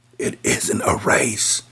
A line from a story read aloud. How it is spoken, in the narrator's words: Todd whispered